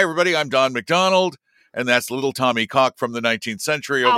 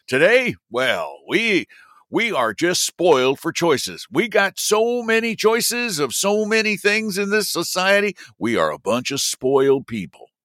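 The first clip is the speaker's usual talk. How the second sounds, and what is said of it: Put-on folksy accent. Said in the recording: “I'm going to lose the accent.”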